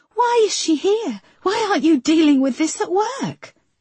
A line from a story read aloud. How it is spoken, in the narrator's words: cried Marcy